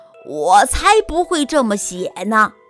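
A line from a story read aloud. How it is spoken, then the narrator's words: Lion's roar. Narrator (Chinese): 狮子大吼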